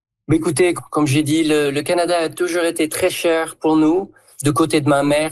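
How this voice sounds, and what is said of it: Southern French accent. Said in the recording (French): “en prenant l'accent du coin ... j'entendais un accent du sud”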